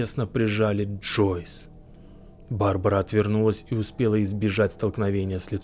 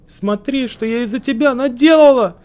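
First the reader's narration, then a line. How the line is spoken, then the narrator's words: Shouting. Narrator (Russian): закричала она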